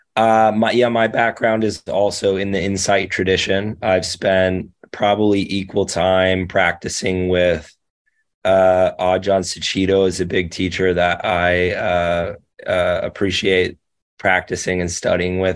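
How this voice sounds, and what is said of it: Voice affected by recent illness. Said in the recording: “excuse my voice. I'm getting over being sick here”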